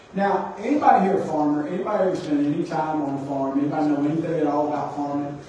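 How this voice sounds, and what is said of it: Mississippi Southern US accent. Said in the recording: “I know I have a Mississippi accent”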